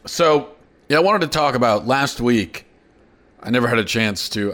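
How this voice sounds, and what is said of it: Hoarse, strained voice. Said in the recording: “Sorry, I'm losing my voice”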